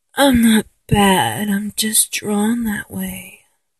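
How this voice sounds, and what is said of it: Sultry seductive cartoon-character voice. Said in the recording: “sound like Jessica Rabbit, Kathleen Turner, when I talk in my seductive voice ... Oh god, that was so bad”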